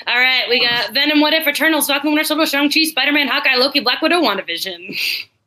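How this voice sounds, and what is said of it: Rapid auctioneer-style listing. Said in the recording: “That was like auctioneer voice.”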